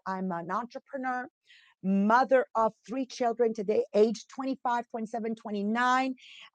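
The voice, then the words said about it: Italian and French-Canadian Montreal accent. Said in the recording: “what's that accent in English? Well, I'm from Montreal, Quebec. So you've got an Italian accent in there with a French, and then of course East End Montreal.”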